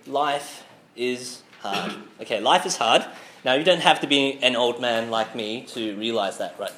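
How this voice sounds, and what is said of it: Sick, slightly odd-sounding voice. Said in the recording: “my voice sounds a bit weird, because I'm sick right now”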